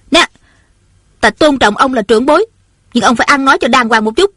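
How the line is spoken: Flushed, angry. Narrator (Vietnamese): Ôn Thanh lập tức đỏ bừng mặt, giận dữ nói

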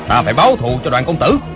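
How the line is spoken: Grieving angry shout. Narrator (Vietnamese): Hộ vệ tên Phó Tư Quy vừa đau lòng vừa tức tối, quát lớn

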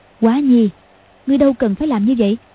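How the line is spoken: Sighing. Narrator (Vietnamese): Hoàng Dung thở dài nói

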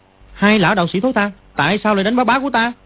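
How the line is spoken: Angry shout. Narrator (Vietnamese): nó tức giận ... quát

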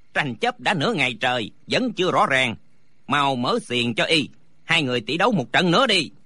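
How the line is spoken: Shouting. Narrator (Vietnamese): Lý Tứ quát lên

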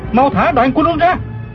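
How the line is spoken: Shouting mid-fight. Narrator (Vietnamese): Du Thản Chi tiến lên một bước, vừa đấu chưởng vừa la lên

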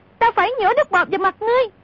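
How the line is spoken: Shouting. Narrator (Vietnamese): Cúc Kiếm thét lên

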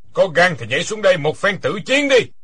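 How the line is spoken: Loud laughing speech. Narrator (Vietnamese): Quyết Đao Tăng ha ha cười lớn nói

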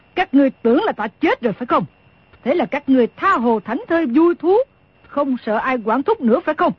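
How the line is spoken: Snorting angry question. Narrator (Vietnamese): Đồng Mổ hừ một tiếng, rồi tức giận hỏi

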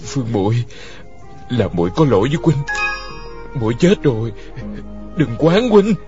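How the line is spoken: Trembling voice. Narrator (Vietnamese): hắn giọng run run

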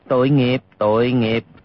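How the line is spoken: Sighing. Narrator (Vietnamese): Hư Trúc thở dài nói

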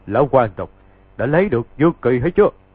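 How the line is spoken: Loud laughing. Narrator (Vietnamese): có kẻ cười to, rồi nói

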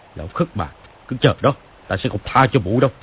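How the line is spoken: Muttering angry shout. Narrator (Vietnamese): Hắn lau bầu chửi, quát lên

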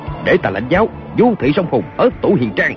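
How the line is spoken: Shouted. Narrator (Vietnamese): Kiều Phong quát lên

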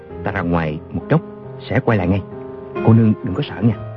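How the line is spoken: Soft. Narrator (Vietnamese): Chàng khẽ bảo A Châu

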